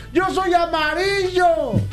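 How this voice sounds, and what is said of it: Shouting. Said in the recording (Spanish): “¿por qué gritas?”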